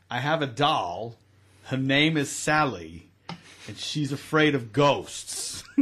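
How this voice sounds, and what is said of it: Imitates another person's voice. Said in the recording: “Is that a Christopher Walken impersonation? Yeah. Yeah, you nailed ... it.”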